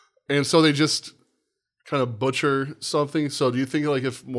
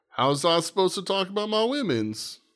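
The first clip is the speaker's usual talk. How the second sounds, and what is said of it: Put-on Italian accent. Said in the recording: “my Italian accent ... That was glorious.”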